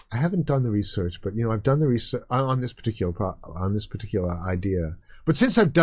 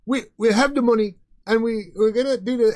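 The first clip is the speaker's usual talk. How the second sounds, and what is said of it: Imitates another person's voice. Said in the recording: “I'll do my Noah Harari impersonation.”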